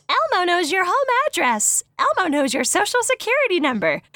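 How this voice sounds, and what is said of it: Poor Elmo character voice. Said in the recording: “That was my best Elmo impression, and it was garbage.”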